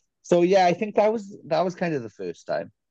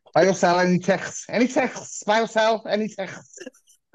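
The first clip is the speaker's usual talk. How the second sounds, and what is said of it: Deliberately bad put-on Scouse accent. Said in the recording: “Terrible Scouse accent, but it terrible accent.”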